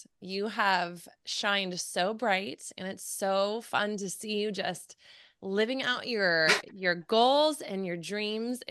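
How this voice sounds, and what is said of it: Teary, emotional voice. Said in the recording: “I'm getting teary-eyed just thinking about it ... Why am I getting emotional?”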